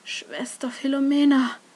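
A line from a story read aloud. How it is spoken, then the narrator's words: Faint, whisper-like call. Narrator (German): rief eine Stimme, schwach wie ein Flüstern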